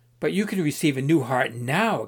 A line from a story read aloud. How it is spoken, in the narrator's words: exclaimed Pilgrim